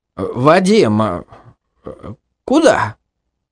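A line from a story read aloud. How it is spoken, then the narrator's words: Confused question. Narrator (Russian): растерянно спросил Фикрет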